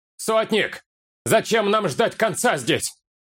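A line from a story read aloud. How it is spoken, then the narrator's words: Shout. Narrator (Russian): крикнул кто-то из воинов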